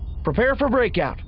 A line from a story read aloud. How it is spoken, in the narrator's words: Zyenda called out to the Greyshrike's bridge crew